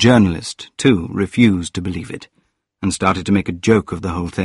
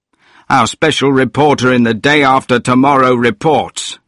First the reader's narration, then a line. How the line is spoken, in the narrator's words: he was saying, or shouting